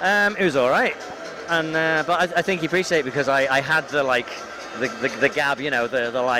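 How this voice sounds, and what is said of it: Usual voice. Nothing is said of it.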